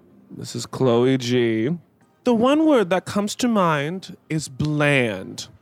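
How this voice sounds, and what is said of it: Reads in a funny voice. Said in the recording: “read in a funny voice ... You guys have to come up with a funny voice.”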